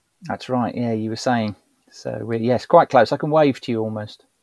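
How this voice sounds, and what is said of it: London English accent. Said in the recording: “despite your accent, and you've been originally from London”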